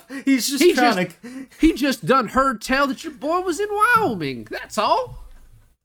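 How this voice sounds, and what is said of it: Cartoonish Southern hillbilly accent. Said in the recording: “your Southern hillbilly accent goes into like almost like 1930s Mickey Mouse cartoonish”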